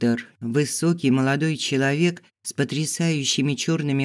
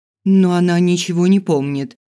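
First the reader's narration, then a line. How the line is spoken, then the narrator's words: Indignant female voice. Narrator (Russian): возмущенно сказал женский голос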